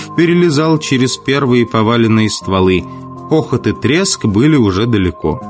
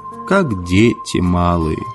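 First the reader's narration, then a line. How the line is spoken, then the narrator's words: Sighing. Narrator (Russian): Он вздохнул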